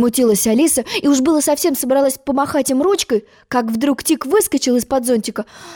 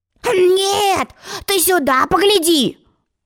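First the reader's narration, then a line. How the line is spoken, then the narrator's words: Loud yell. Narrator (Russian): завопил он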